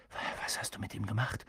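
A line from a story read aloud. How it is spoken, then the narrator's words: Whisper. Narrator (German): flüsterte Harry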